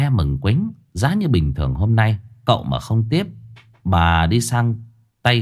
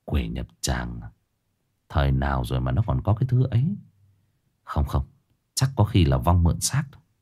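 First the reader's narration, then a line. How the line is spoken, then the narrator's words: Startled, puzzled muttering. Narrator (Vietnamese): Cậu tẩy giật mình, cau mày suy nghĩ rồi lẩm bẩm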